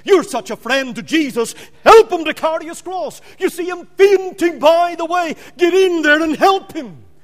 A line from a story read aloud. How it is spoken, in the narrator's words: they cried out